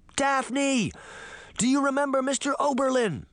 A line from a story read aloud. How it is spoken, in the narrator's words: Sabrina shouted, hoping her sister had not forgotten this particular foster father